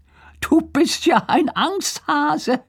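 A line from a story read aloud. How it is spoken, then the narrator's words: Teasing, laughing. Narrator (German): sagt Lars und lacht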